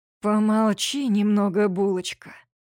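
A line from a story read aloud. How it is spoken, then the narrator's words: Hoarse rasp. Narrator (Russian): хрипит Платон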